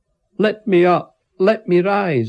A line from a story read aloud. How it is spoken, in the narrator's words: I shouted